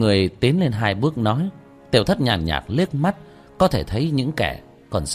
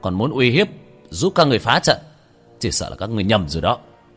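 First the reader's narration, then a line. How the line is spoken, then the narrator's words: Cold shout. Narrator (Vietnamese): khí tức quanh người lạnh lẽo, quát lên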